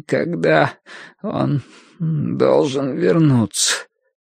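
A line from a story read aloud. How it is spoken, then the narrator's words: Strained, forced out. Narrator (Russian): выдавил Бадри через силу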